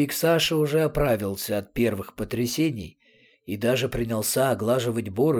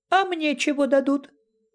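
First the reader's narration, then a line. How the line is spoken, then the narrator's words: Squeaky voice. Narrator (Russian): он пропищал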